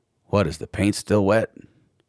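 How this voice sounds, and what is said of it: Imitates another person's voice. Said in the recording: “that almost sounds like the same guy ... you are good with your impersonations”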